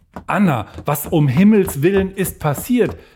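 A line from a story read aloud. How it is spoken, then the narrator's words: Call out. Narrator (German): rief Magdalena ihr entgegen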